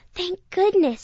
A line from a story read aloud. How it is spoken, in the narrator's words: she gasped